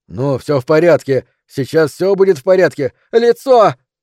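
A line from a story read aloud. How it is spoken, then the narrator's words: Nurse speaking loudly over someone. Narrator (Russian): Сестра громко заговорила, стараясь перекричать ее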